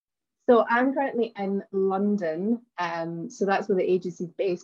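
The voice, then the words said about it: Glaswegian Scottish accent. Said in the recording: “you'll notice from my accent, that I'm originally from Glasgow in Scotland.”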